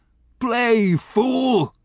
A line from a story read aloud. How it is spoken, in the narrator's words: he yelled